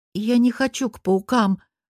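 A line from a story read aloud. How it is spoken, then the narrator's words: Timid remark. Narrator (Russian): робко замечаю я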